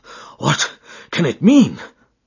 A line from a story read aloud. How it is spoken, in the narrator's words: gasped